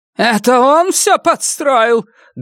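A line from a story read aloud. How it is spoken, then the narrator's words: Loud, old woman. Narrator (Russian): громко спросила старуха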